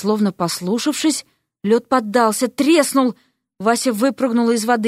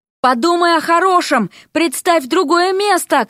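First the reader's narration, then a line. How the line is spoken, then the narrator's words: Shouting. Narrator (Russian): крикнула ему Вася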